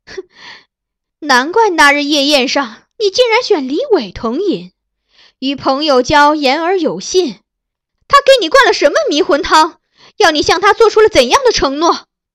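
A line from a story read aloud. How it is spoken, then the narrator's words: Bitter cold laugh. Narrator (Chinese): 他含恨冷笑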